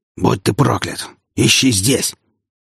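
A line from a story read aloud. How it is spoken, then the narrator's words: Hoarse voice. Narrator (Russian): Хриплый голос звонившего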